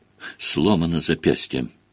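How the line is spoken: Muttering. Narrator (Russian): бормотание

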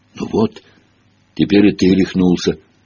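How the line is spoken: Calm. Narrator (Russian): спокойно отреагировал тот

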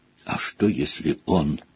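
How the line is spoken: Soft whisper. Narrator (Russian): тихо прошептала Гермиона

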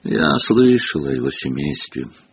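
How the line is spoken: Gloomy. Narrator (Russian): мрачным тоном начал Рон

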